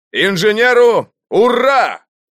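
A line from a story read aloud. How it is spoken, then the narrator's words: Shouted in unison. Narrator (Russian): мы все дружно крикнули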